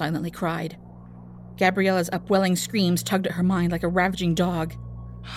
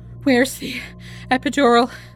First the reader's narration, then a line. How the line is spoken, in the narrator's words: Gabriella breathed, too exhausted to speak up